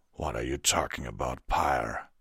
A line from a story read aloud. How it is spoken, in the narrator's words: Vanguard asked, his voice low